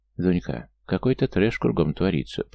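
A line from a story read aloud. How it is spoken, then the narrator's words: Muttered by female friend. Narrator (Russian): пробормотала подруга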